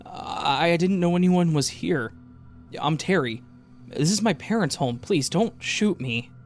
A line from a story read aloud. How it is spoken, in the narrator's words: told me as his voice wavered